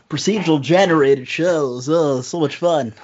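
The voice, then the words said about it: Nerdy character voice. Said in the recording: “Nerd voice. That's yeah, my that's nerd ... Voice. ... has arrived with his nerd voice.”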